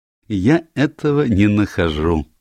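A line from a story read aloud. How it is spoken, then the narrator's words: Assuring. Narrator (Russian): заверил Пуаро инспектора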